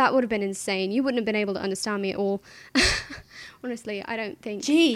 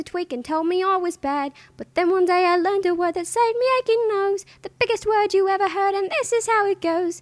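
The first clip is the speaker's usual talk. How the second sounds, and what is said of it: Put-on British accent. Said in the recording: “all the absurd things you people asked me to speak in my British accent”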